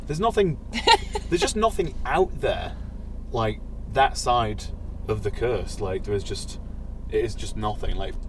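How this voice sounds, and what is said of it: East Riding Yorkshire accent. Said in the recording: “I do have a weird accent. So, I'm from the East Riding of Yorkshire ... You actually do say it without the H as well”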